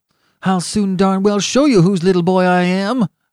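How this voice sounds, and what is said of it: Ferocious voice. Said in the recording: “in a ferocious voice.”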